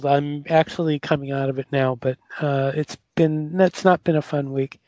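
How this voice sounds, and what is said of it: Slightly raspy voice. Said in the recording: “my voice sounds a little raspy, it's because I've been hit with a pretty bad cold”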